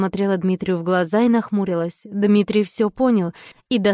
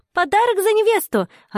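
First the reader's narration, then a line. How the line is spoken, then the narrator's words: Shout. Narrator (Russian): Аннушка крикнула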